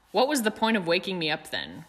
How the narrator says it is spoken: grumbled the fat lady

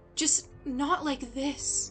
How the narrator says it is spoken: Charlotte whimpered

